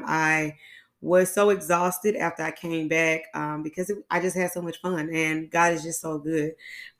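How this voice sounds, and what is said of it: Tired, strained voice going in and out. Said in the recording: “hear it in my voice right now... my voice has been going in and out lately. I think it's like a sinus issue or allergy issue”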